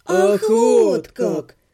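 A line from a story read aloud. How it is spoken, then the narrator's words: Drawled together. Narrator (Russian): протянули мы с Отто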